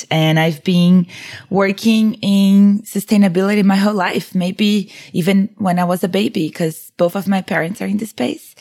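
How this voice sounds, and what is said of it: Brazilian accent. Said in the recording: “I'm originally from Brazil, as you may notice, my accent”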